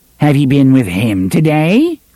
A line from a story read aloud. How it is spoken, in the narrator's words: Cordelia asked, in a brittle, laughing voice